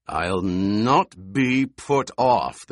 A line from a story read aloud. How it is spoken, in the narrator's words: the Colonel Bashar snarled